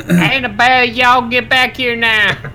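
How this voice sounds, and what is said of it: Put-on Southern US accent. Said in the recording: “that's the southern accent.”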